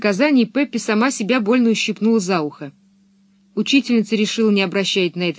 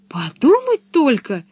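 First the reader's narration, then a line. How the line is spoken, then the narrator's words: Exclaiming. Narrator (Russian): воскликнула Пеппи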